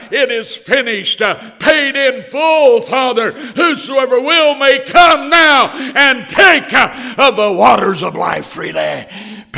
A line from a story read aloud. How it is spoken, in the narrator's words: He cried